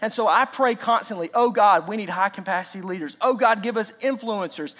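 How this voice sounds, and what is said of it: Fast-talking Southern American accent. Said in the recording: “I know I'm talking way faster than you can keep up. A fast talking Southerner is hard to understand.”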